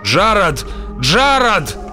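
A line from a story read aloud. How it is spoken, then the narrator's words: Shouting. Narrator (Russian): закричал он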